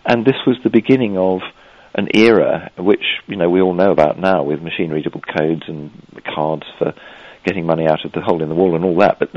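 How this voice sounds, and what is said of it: English accent. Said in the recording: “you're from a place called England ... I expect my accent gives me away.”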